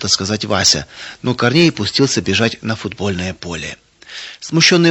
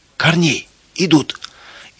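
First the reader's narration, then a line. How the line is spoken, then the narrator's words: Frightened shout. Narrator (Russian): испуганно закричал он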